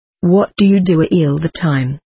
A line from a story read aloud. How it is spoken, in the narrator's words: asked